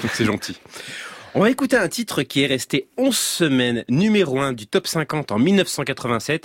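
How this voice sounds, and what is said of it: Usual voice. Nothing is said of it.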